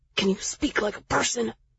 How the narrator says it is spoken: Jax hissed

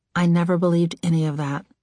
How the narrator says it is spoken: said softly

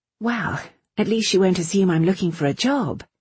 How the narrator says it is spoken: Irene said cheerfully

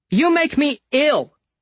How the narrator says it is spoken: the large woman shouted

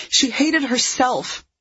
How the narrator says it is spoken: Roxy blurted out

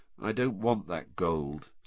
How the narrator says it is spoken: said Harry in an expressionless voice

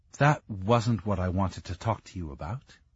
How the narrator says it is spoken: she said quietly

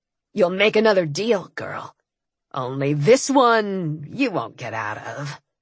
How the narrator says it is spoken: Dagon purred

